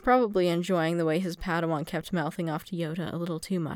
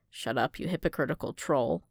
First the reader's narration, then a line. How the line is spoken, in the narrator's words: Fimor muttered